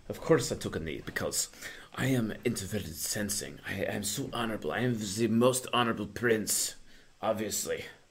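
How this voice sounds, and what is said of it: Put-on French accent. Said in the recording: “I'm like saying this in like a French accent”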